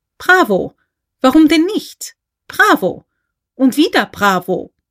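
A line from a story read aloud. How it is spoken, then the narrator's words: Clapping and calling out. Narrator (German): Irgendwo klatschte jemand mit erhobenen Händen und rief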